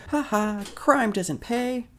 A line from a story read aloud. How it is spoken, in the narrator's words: Albert yells